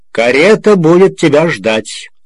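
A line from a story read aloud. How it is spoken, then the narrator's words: Shouting after someone. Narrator (Russian): Комбайнер крикнул вслед Обнорскому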